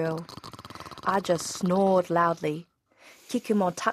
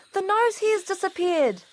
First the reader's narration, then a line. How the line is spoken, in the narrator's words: exclaimed the girl